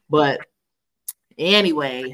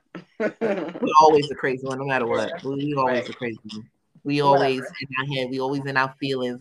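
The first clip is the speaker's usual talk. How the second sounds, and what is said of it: Sarcastic delivery. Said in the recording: “I'm being sarcastic.”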